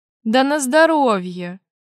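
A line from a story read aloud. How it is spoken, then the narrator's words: Hmph. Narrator (Russian): хмыкнул я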